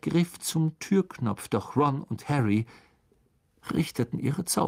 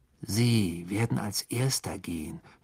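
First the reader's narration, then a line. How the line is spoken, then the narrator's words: Growl. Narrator (German): knurrte Ron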